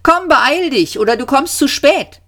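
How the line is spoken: Old man calling. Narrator (German): rief der Alte

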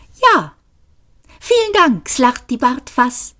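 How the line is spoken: Sharp. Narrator (German): sagte Benji Maus scharf

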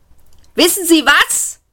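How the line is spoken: Shouting into ear. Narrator (German): brüllte ihm Seyford ins Ohr

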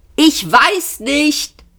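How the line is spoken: Roaring back. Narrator (German): brüllte Ford zurück

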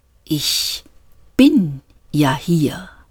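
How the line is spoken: Slow voice. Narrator (German): sagte die Stimme langsam

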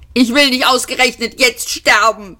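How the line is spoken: Shouting. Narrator (German): schrie

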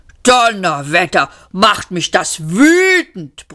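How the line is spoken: Roaring machine. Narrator (German): brüllte die Maschine

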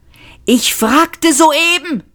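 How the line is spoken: Shouting. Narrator (German): schrie Trillian

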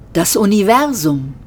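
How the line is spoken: Plain, simple. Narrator (German): sagte Gargravar schlicht

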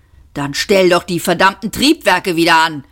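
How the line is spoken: Snapping. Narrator (German): schnauzte Seyfort

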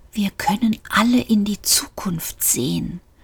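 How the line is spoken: Terrified whisper. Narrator (German): flüsterte der Fahrstuhl, und es klang wie schreckliche Angst

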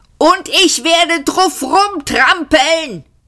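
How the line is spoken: Shouting. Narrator (German): schrie Arthur

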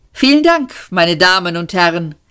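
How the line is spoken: Called out. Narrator (German): rief

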